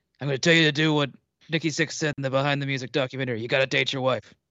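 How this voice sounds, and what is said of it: Impression of Roy Kent's voice. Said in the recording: “you gotta do it my Roy Kent voice.”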